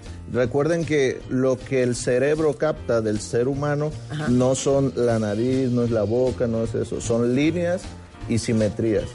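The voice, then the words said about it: Guerrero Mexican Spanish accent. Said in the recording (Spanish): “ya te oí el acento guerrerense”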